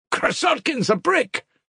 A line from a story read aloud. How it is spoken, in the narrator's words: cried a third voice